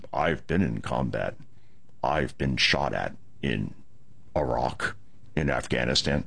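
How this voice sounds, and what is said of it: Imitates another person's voice. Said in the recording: “my Scott Pelley imitation. It's quite good.”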